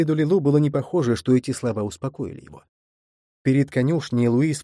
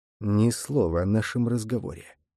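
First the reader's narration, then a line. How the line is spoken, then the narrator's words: Whisper. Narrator (Russian): прошептал Нерон Лилу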